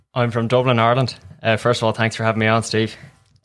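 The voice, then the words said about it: Irish accent. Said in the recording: “a great Irish accent ... a very good accent”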